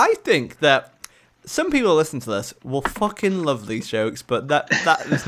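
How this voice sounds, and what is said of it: Usual voice. Nothing is said of it.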